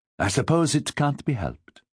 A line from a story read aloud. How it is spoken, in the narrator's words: Pierre said, his tone light